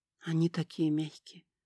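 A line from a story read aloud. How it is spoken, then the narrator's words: Whisper. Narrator (Russian): прошептал Херкарт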